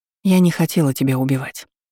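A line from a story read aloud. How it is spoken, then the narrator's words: Sigh. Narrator (Russian): вздохнула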